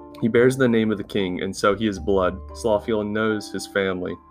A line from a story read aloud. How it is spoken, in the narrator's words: Cordock said